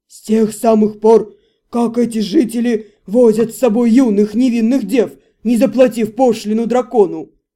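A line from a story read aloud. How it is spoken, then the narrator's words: Roaring. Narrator (Russian): Хилар взревел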